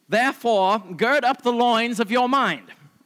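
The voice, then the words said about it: Mock old-fashioned archaic accent. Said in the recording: “I'm going to do it in a 14th century accent”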